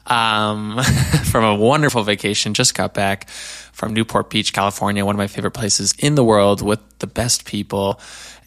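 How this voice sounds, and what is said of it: Raspy, slightly low voice. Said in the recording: “my voice is not quite what I want it to be. A little raspy, a little low”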